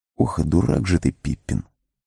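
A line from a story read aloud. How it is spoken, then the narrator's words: Whispered self-scolding. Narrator (Russian): шепотом обругал себя хоббит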